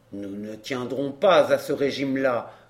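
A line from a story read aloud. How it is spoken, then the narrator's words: Grumbled. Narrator (French): grommela-t-il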